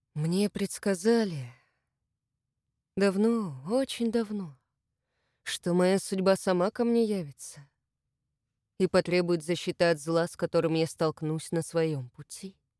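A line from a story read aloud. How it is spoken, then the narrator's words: Drawling. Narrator (Russian): протянул Возгонцев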